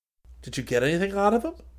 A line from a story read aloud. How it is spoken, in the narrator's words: Rick asked eagerly